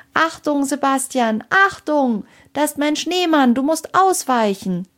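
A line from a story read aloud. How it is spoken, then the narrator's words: Shouting as loud as possible. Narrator (German): rief sie so laut sie konnte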